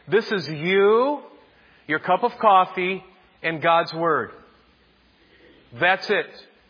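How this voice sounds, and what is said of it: Yelling, emphatic delivery. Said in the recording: “why are you saying it like that, and why are you yelling a little bit?”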